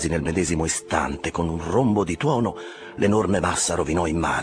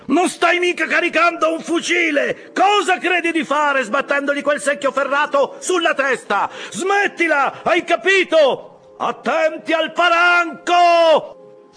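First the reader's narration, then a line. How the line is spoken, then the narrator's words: Desperate yell. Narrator (Italian): urlò disperatamente una voce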